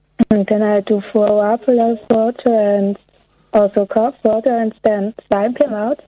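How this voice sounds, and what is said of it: Thick foreign accent. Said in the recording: “She has got a foreign accent... her accent is thicker than it is usually”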